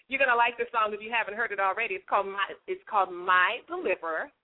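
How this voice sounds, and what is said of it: Very fast talking. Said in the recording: “I'm talking so fast. ... I talk really, really fast.”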